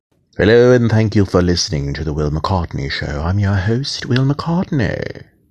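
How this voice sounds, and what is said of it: Poor put-on British accent. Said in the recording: “my British accent sucks”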